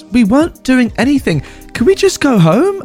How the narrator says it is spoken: the girl pleads

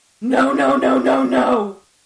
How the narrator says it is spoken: I screamed

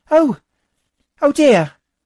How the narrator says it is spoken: Trudy cried

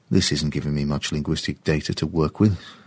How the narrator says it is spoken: James muttered to himself

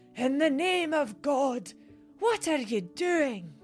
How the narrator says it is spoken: Horrified, from the depths of her ancient lungs bellowed

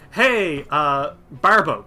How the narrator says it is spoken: says

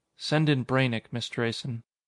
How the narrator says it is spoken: Malloy said softly

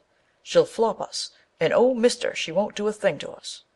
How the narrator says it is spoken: remarked Jack cheerfully

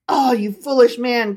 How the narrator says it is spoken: cried Rabbi Levi

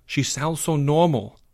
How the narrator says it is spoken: whispered Porge

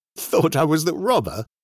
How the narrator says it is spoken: laughed

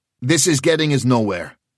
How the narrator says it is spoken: he said sharply

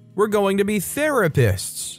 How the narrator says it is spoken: She's a mama bear and she yells over the cacophony

